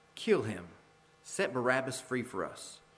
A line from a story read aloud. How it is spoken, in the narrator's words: The whole crowd cried out